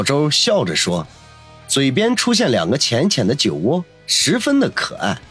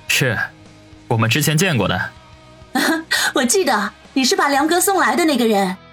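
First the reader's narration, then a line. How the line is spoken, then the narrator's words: Slight smile. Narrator (Chinese): 王宇微微一笑，说道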